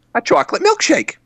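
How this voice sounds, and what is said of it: Silly goofy comedic character voice. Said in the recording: “What was that voice you just did? ... It was like a silly thing ... it would be like Curly from the Three Stooges”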